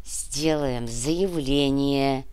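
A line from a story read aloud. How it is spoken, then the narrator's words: Hiss. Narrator (Russian): прошипел Борис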